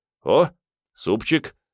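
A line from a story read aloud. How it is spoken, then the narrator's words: Cheerful remark. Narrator (Russian): бодро отметил Мун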